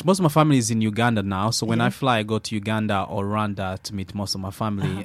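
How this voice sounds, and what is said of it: Slight Scottish accent. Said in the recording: “you've got a slight Scottish accent. ... It's there. It comes and goes.”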